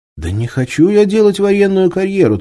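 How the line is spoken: Hurried. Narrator (Russian): торопливо доложил Алексей

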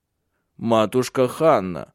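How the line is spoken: Stern. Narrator (Russian): строго сказал Тенгель

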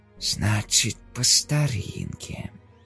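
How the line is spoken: Whisper. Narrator (Russian): прошептал он

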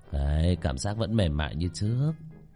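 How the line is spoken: Muttering. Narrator (Vietnamese): trong miệng lẩm bẩm

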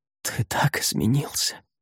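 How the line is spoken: Whispering. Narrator (Russian): прошептала она

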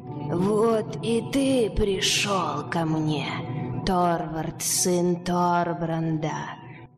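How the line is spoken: Low hissing malicious voice. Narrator (Russian): Заговорил он низким, шипящим, злобным голосом

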